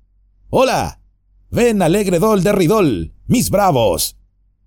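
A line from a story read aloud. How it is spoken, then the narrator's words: Shouting while clapping. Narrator (Spanish): golpeó las manos y gritó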